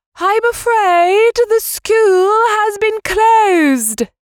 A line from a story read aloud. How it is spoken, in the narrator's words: shouted